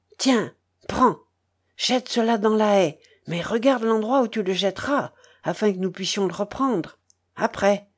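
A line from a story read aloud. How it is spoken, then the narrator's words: Barely audible whisper, old man. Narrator (French): chuchota l'aïeul à peine distinctement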